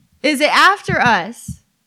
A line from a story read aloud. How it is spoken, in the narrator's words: Mike screamed